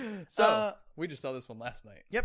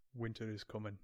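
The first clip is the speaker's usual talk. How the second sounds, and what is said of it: Deep voice with Irish accent. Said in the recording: “Who has an Irish accent that says that in a deep voice?”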